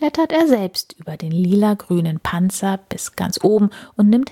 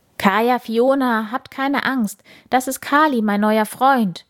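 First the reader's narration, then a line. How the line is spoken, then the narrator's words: Enthusiastic calling. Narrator (German): ruft Bauer Pop ihnen begeistert zu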